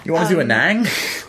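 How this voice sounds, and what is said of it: Weak put-on accent, half Michael Caine. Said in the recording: “That's not an accent at all. ... That's an accent. ... That's not an accent. That's like a halfway to Michael Caine.”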